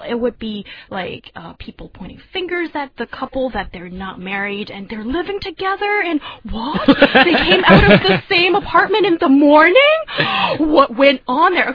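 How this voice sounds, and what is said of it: Imitates a gossiping middle-aged woman. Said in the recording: “for a second I was Dama, and no offense to those middle-aged ladies ... does that impression ... She was doing that impression very convincingly.”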